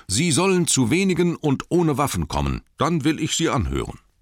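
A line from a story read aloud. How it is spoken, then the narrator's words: Calling out. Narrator (German): rief er zu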